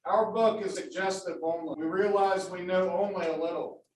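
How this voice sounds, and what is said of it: Big booming radio voice. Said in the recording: “your big booming radio voice”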